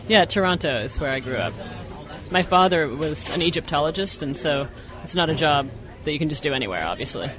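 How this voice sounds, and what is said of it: Canadian accent. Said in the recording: “Were you raised in Canada? ... I heard the accent.”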